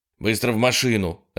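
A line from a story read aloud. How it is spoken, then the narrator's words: Sharp. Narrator (Russian): резко сказал Холден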